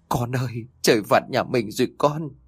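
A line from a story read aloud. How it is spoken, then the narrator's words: Trembling, frightened woman. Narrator (Vietnamese): Bà Cả Chi vẫn còn chưa hết kinh sợ vì tiếng sét ban nãy, bà run rẩy nói với Trinh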